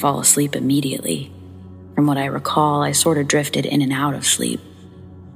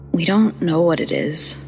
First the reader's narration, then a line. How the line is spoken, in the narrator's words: said, nervously